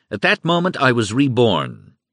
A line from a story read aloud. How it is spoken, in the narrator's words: Goebbels exclaimed